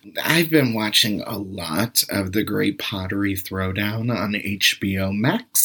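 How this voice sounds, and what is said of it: Usual voice. Nothing is said of it.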